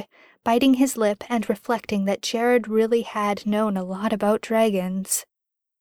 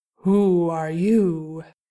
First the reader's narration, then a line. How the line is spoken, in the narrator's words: a rumbling voice asked